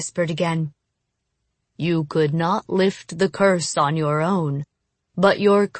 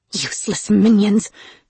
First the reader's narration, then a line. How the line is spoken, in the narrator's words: she muttered